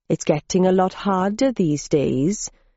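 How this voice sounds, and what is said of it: Sing-song Welsh accent. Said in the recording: “he replied in a sing-song Welsh accent that betrayed his roots in the south of the Republic.”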